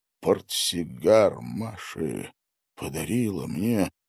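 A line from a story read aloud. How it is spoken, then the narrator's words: Muttered. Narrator (Russian): пробормотал он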